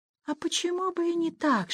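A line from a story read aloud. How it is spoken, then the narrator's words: Whisper. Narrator (Russian): шептала она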